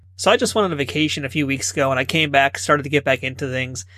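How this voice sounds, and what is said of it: Unwell, strained-sounding voice. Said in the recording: “my voice is kind of not so good this week”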